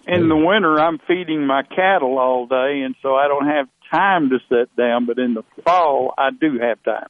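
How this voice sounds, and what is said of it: Texan cowboy drawl. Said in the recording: “I love his cowboy accent.”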